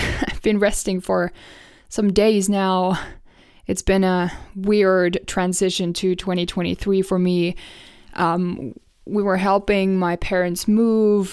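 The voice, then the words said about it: Sick, hoarse-sounding voice. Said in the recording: “hear from my voice, I have been sick and I can still feel how my vocal cords are swollen”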